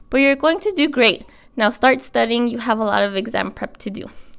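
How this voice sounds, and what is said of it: Out of breath, cold-affected voice. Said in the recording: “I'm out of breath. Sorry, guys. I'm getting over a cold.”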